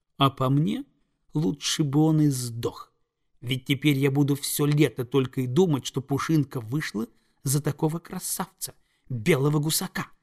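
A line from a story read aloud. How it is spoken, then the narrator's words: Hiss. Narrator (Russian): прошипела Прекраснокрылая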